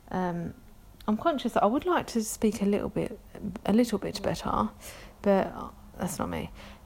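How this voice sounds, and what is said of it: London accent. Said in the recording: “I'm from London. You can probably tell that from my accent. ... people are just going to have to deal with my London accent.”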